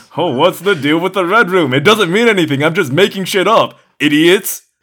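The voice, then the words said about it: Imitates another person's voice. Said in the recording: “That's my David Lynch impression.”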